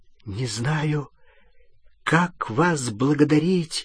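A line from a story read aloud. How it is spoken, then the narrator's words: Trembling voice. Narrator (Russian): дрожащим голосом сказал Рон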